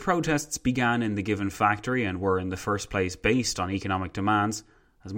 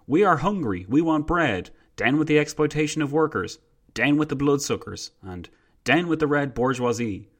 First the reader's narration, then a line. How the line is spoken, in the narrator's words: Protesters shouted